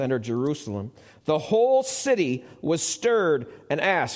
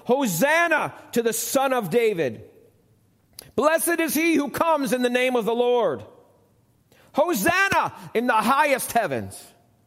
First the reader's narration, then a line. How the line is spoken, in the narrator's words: The crowds that went ahead of him, those that followed, shouted